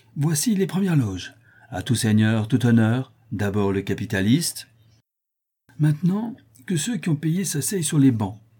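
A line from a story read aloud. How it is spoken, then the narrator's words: Cheerful. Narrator (French): ajouta gaiement Pic-Vinaigre, croyant fermement que Germain n'avait plus, grâce à lui, aucun péril à redouter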